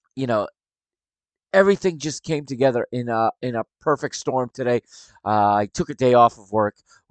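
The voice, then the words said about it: Weak, strained voice. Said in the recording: “I'm actually struggling to speak right now. My my voice is is weaker than normal.”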